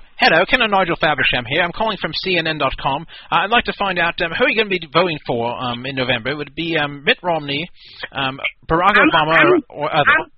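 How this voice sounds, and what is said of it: Put-on accent as phone pollster. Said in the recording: “I'll pretend to be from CNN. ... Would you like me to change accents for you?”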